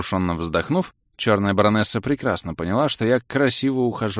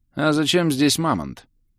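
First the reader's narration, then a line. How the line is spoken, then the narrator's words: Lazy inquiry. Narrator (Russian): Лениво поинтересовался я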